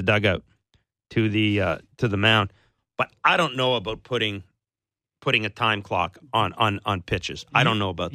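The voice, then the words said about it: Hoarse, strained voice. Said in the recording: “I need a glass of water because I'm losing my voice.”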